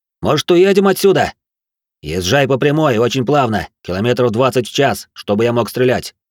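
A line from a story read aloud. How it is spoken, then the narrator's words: Shouted, echoing over radio. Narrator (Russian): крикнул в ответ мужчина, и его голос эхом прозвучал по рации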